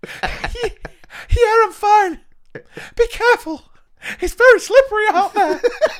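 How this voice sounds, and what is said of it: Winded, breathless teacher voice. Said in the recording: “Good impression of a winded teacher there.”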